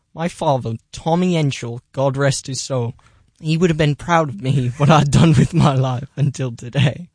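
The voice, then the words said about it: Put-on English accent. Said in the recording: “I really did an accent for that one ... My senior show took place in England, and I did an accent then ... that's a great accent.”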